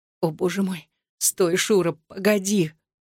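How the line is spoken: Hoarse whisper. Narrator (Russian): хрипло шептала Татьяна

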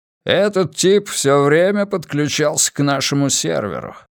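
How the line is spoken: Grumbling. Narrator (Russian): проворчал он

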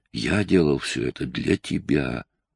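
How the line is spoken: Hoarse. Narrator (Russian): хрипло проговорил он

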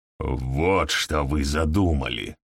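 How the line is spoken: Growl. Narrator (Russian): прорычал

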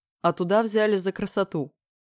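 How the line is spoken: Scoffing snort. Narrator (Russian): хмыкнул Леха

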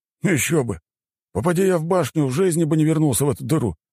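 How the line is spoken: Snort. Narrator (Russian): хмыкнул Демид

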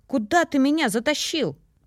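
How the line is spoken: Frightened desperate shout. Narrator (Russian): Я испуганно отчаянно крикнула

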